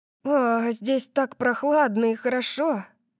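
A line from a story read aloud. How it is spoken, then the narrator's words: Sighing. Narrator (Russian): вздохнула она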